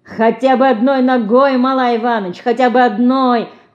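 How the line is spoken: Laughing loudly. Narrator (Russian): хохотал Костя

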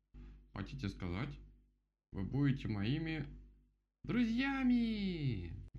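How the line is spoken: Loud shout in unison. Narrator (Russian): Громко закричали они все вместе

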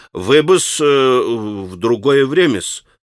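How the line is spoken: Babbling mumble. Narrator (Russian): пролепетал он

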